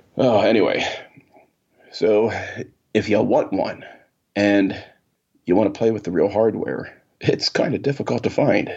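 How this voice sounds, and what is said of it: Congested, nasal voice. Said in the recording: “all this nasal stuff ... this isn't my natural voice ... It's a head full of something voice”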